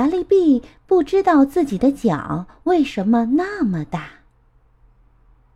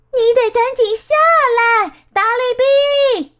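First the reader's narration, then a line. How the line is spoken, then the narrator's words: Shouting together. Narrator (Chinese): 他们大喊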